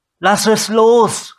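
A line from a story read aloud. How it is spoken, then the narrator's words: Calling out to someone. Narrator (German): rief sie Gideon zu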